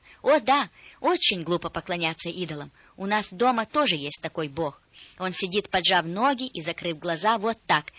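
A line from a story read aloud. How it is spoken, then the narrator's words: Girl exclaiming. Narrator (Russian): девочка воскликнула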